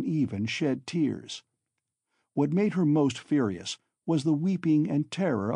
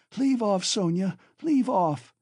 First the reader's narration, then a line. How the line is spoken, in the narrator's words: she shouted, speaking fast, panting and coughing